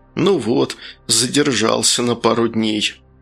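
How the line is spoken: Annoyed mutter. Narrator (Russian): толстячок пальто с досады пробормотал

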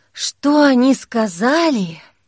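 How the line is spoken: Sighing. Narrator (Russian): вздохнула Кира

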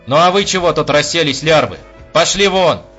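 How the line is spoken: Shouting, head down. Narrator (Russian): закричал майор, по-прежнему не поднимая головы

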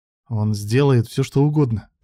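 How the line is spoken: Through gritted teeth. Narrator (Russian): процедил сквозь зубы Илья

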